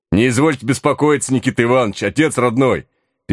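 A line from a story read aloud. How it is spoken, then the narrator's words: Shouting over rising noise. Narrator (Russian): Перекрывая нарастающий гул, прокричал мой напарник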